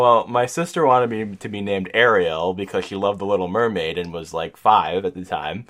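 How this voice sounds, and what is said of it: Usual voice. Nothing is said of it.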